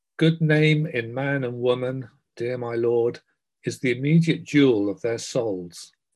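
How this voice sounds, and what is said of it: Theatrical Shakespearean reading voice. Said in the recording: “in my best Shakespearean voice”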